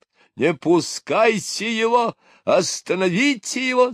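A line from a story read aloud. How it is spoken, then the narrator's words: Alarmed shout. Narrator (Russian): закричал пятис мистер Булрос, ибо Квудл пошел на него с бульдожьей решительностью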